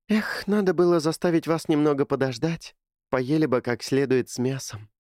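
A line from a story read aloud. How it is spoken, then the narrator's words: Sighing. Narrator (Russian): вздохнула Кэти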